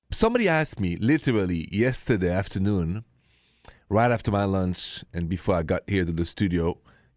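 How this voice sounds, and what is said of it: French accent. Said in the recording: “The accent is French, straight from Paris.”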